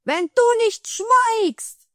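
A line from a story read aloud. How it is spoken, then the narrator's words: Shouted at. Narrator (German): schrie er den Troll an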